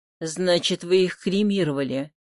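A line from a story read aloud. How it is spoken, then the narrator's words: Dejected voice. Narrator (Russian): упавшим голосом сказал Собакин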